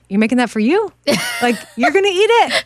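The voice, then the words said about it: Imitates another person's voice. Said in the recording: “Who are you imitating exactly? ... My dad.”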